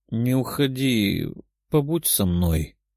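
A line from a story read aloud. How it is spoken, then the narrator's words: Sleepy mumble. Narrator (Russian): пробормотала девушка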